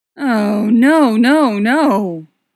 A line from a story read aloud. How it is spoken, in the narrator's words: Tony moans